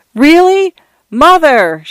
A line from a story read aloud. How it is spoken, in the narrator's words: Shanta shouted